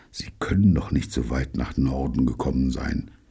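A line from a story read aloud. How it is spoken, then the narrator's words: Quiet, to himself. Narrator (German): sagte er leise wie zu sich selbst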